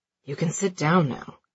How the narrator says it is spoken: he mumbles to his wife

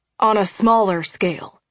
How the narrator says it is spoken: Carl said dryly

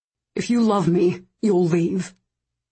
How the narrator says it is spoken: his voice was tight

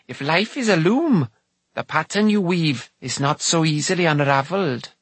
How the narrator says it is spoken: she added, in her usual sharp tone

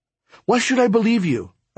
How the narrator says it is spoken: I blurted out

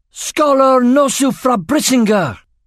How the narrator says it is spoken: Aragorn cried

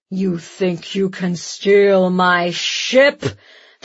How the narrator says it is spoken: the giant growled

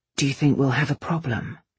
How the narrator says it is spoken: Kai murmured

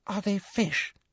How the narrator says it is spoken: breathed Ginny

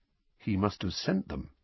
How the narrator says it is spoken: said Harry quietly, more to himself than to Uncle Vernon

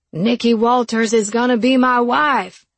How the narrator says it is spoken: shouted toward the high ceilings

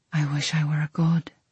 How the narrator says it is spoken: he breathed

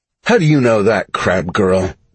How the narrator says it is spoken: Carl said with a condescending sneer

